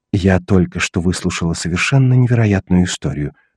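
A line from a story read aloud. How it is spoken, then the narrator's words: Whisper. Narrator (Russian): шепнула она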